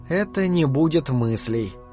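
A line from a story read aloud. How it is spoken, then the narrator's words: Muttered. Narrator (Russian): пробормотала Вашти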